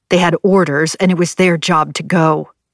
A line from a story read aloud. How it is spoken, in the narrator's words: Nevada growled